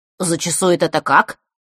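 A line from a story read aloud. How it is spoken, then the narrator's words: Businesslike question. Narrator (Russian): деловито спросил Саша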